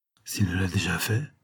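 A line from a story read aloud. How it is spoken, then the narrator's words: Murmured. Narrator (French): murmura Eubank après lui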